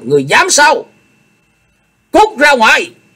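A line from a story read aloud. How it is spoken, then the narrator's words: Stern roar. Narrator (Vietnamese): Chu Lệ nghiêm nghị gầm lên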